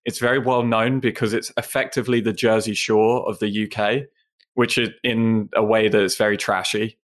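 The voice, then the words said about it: British accent from Essex. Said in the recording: “I noticed you have an accent. ... I was born in the UK ... the county where I'm from is called Essex”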